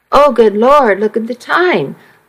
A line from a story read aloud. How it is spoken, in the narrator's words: I exclaimed